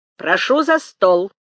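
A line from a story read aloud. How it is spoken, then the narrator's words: Stern father. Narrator (Russian): строго говорил отец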